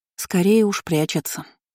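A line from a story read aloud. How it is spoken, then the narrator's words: Sighed. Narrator (Russian): вздохнула Кейра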